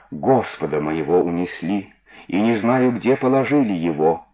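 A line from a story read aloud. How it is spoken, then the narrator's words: Plain. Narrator (Russian): ответила Магдалина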